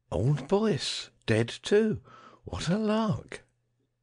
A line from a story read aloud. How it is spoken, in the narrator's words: Davidson exclaimed